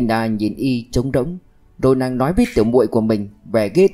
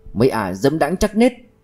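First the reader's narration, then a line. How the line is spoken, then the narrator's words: Angry exclamation. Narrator (Vietnamese): Kiều Thái giận dữ thốt lên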